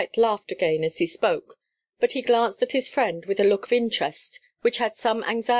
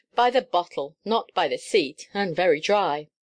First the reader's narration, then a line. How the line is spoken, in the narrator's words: answered Ralston, grimly